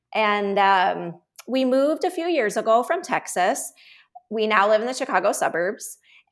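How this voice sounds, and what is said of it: Chicago accent. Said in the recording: “you've already got the Chicago accent. It's already there.”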